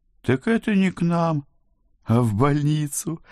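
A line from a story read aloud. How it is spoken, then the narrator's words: Cheerful suggestion. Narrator (Russian): радостно предложил Флеврити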